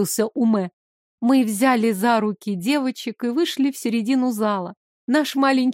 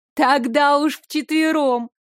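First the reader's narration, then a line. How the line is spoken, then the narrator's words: Girls laughing. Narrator (Russian): рассмеялись девочки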